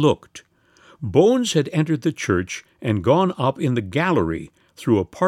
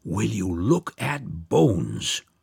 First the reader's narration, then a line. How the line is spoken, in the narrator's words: someone murmured, in an awe-stricken whisper